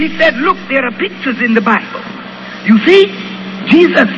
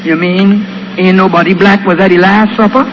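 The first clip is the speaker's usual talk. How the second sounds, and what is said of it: Imitated West Indian accent. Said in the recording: “in her West Indian accent”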